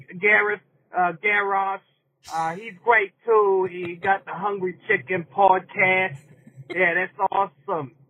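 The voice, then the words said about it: Bad fake New York accent. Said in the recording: “was he doing a bad New York accent? ... whether he was faking that accent or that is legitimately his accent. I think he's faking it.”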